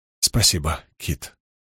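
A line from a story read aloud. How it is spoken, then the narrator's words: Breathy exhale. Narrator (Russian): выдохнула Апал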